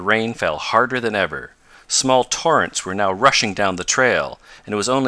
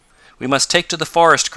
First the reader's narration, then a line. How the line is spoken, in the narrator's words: cried Tom